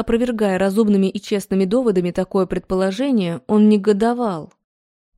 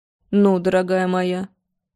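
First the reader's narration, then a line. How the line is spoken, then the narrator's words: Dry. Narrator (Russian): сказал он ей сухо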